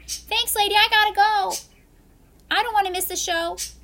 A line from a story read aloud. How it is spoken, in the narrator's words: With haste, ran off shouting